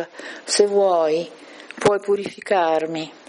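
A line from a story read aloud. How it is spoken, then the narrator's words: Leper pleading on knees. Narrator (Italian): un lebbroso che lo supplicava in ginocchio e gli diceva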